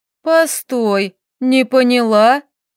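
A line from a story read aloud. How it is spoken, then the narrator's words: Drawl. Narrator (Russian): Протянула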